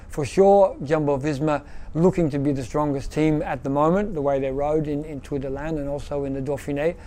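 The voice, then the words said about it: Australian speaker with Belgian-sounding accent. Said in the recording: “The most Belgium accent in an Australian body I've ever heard. ... Dutch sort of quirky Belgian accent.”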